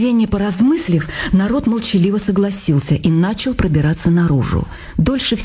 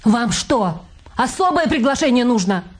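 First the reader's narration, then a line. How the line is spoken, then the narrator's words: Shrill, quarrelsome shout. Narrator (Russian): скандальным голосом выкрикнула Люсенька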